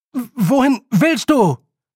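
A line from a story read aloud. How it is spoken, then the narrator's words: Calling after someone. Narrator (German): rief Roland ihr nach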